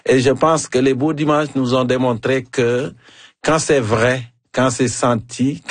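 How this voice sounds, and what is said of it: African French accent. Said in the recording (French): “mon accent africain ... C'est encore plus savoureux avec ton accent africain”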